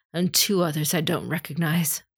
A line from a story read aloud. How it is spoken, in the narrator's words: breathed